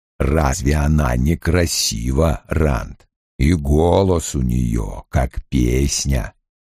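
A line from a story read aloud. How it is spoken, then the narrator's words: Quiet. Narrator (Russian): Лойл тихо заговорив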